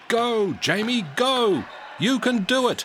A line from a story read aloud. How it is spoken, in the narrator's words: shouted Coach Wilson